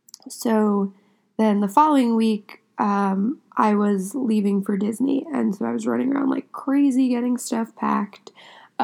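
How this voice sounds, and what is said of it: Congested, sick-sounding voice. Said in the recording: “I'm sick at the moment, so I sound a little congested”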